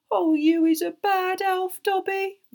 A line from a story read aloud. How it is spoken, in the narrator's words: moaned Winky, tears leaking down her face once more